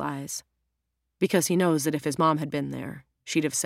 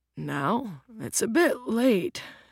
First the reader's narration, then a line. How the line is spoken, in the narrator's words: his dad yawns